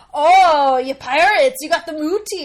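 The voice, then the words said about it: Pirate accent. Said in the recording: “They all have pirate accents. ... they're talking like pirates on purpose?”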